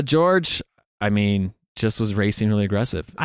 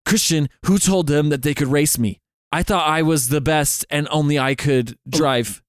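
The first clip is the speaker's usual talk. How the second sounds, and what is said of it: Failed Max Verstappen impression. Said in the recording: “doing a George Russell impression as Max ... I can't do a Max impression ... It either came out as George”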